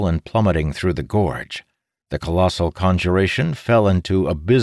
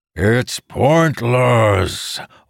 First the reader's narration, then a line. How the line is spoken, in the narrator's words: Orthisian bellowed